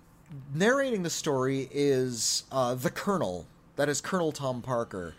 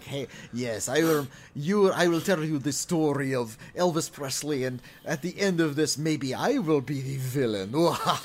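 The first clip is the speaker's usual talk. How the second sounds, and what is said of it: Exaggerated supervillain accent. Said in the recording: “super villain accent, this like Dr. Doom accent”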